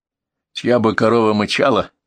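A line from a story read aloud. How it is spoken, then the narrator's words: Snorting. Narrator (Russian): хмыкнул Артемыч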